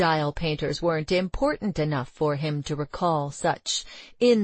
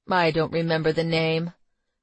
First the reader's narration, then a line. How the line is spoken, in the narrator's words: replied Roeder coldly